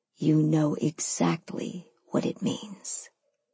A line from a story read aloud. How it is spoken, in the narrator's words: he breathed into my ear